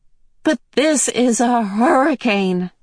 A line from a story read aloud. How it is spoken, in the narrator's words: Meg wailed